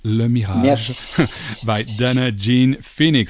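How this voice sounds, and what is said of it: French-Belgian accent. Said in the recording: “with my French-Belgian accent”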